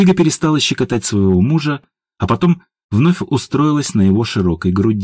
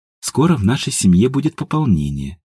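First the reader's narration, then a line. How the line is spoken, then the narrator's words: Quiet confession. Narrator (Russian): тихо призналась Едвига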